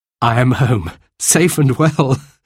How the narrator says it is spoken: laughed

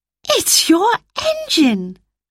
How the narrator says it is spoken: cried Roberta

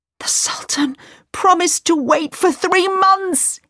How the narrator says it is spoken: cried

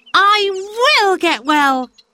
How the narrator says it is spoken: cried

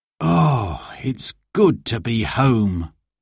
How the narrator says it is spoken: sighed

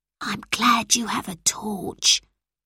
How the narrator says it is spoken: whispered Anton

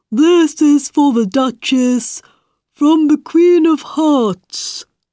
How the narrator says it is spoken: he said in an important voice

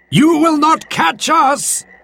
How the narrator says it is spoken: they called out as they ran

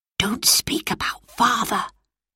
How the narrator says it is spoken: whispered Roberta in Phyllis's ear

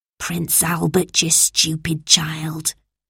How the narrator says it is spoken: she whispered

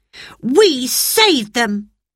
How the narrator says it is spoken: cried Peter, still excited

